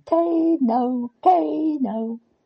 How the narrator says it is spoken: Olivia joined in, running round and round and shouting

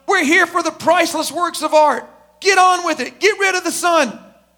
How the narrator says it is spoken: People started yelling out

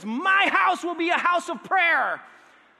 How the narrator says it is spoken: He's yelling at people, and he says

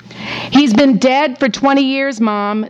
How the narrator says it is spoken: screamed Deb because her mother was almost deaf

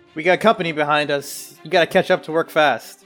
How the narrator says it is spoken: he yells to Cirrus

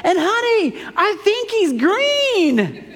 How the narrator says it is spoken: she yells back inside

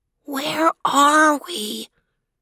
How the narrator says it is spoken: he asked in a whisper, a tremble in his voice making her think he was about to cry

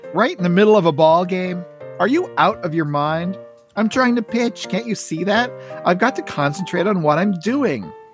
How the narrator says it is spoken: Charlie Brown is surprised by the interruption, then turns and sees Snoopy and yells

